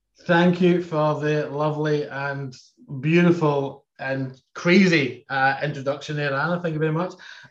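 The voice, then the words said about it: Speaks with a noticeable accent. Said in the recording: “I can hear an accent. ... That's natural.”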